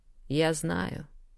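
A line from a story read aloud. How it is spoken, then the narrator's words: Tender. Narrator (Russian): нежно признался мой кошмарик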